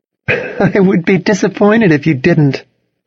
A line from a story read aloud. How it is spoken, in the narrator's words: Cassidy laughed